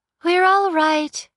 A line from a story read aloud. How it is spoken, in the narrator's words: said, smiling brightly